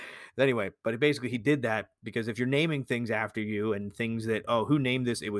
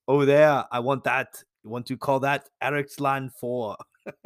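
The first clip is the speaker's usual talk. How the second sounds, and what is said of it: Put-on Austrian accent. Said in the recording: “I gave Eric the Red an Austrian accent like Arnold Schwarzenegger”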